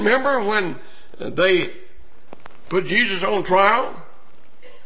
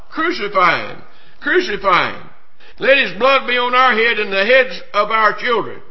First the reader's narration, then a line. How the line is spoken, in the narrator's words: cried out